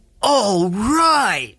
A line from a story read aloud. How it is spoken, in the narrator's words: they yell